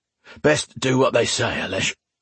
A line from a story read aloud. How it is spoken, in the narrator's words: Erwin said in a gruff voice